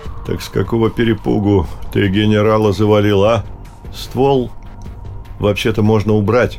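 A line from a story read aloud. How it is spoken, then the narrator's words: Grumbled. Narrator (Russian): проворчал Салтаханов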